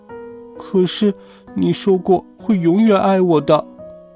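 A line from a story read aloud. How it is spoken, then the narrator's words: Crying. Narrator (Chinese): 阿丽哭着说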